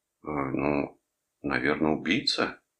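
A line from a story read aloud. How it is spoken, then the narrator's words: Mumbling. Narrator (Russian): промямлил я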